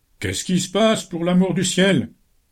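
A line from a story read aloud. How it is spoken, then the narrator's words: Shouted. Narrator (French): cria Ike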